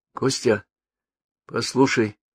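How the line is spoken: Soft. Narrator (Russian): тихонько сказала она

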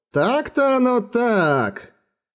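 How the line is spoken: Drawling. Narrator (Russian): протянул Слоан

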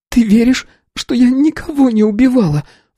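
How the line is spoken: Sobbing. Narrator (Russian): всхлипнула она

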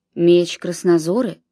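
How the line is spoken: Quiet murmur. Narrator (Russian): негромко вымолвил раб

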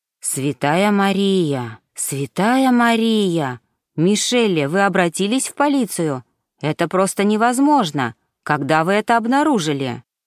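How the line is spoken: Sighing. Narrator (Russian): Ринальди вздохнула

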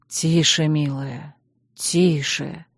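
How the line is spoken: Hoarse voice. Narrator (Russian): хрипло проговорил Чейз

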